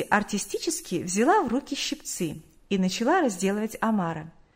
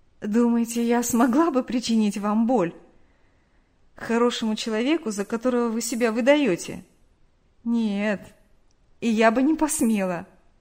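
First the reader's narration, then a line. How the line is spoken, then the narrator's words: Said amid laughter. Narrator (Russian): Они рассмеялись, и Нэнси сказала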